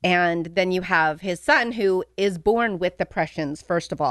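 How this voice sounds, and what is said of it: Usual voice. Nothing is said of it.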